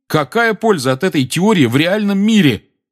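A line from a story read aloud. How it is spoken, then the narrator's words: Loud. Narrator (Russian): громко подал голос Гарри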